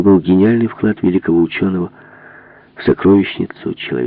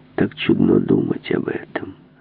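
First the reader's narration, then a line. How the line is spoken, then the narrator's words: Quiet flat voice. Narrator (Russian): тихим бесцветным голосом сказал он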